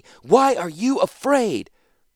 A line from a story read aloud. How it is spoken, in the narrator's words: Rat screamed